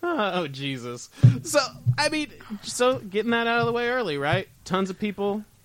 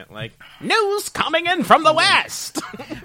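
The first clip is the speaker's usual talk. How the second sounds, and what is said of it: Put-on transatlantic accent. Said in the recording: “a guy who talks in a transatlantic accent”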